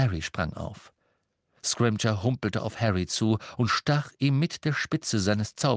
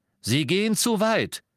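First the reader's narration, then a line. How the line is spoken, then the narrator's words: Called out. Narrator (German): rief Scrimgeour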